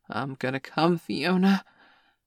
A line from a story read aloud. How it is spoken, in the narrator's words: he suddenly gasped